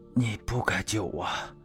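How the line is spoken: Hoarse voice. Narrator (Chinese): 刘长乐声音沙哑的道

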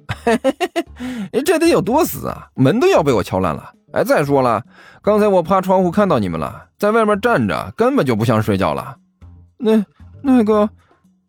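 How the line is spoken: Chuckling. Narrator (Chinese): 甘球嘿嘿一笑

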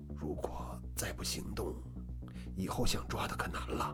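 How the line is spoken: Lowered voice. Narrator (Chinese): 柳松压低了声音

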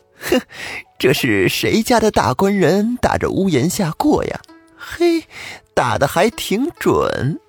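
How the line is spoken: Laughing. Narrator (Chinese): 王婆笑着说

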